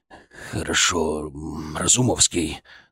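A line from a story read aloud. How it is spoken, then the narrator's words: Forced, reluctant. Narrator (Russian): наконец выдавил он из себя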